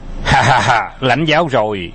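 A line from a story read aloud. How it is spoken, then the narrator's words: Loud laughter. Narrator (Vietnamese): Phục Khiên cười lớn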